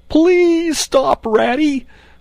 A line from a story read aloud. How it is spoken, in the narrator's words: pleaded the poor mole in anguish of heart